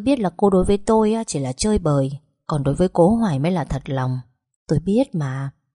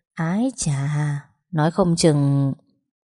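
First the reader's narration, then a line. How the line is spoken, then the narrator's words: Soft exclamation. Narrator (Vietnamese): hắn ta khẽ thốt lên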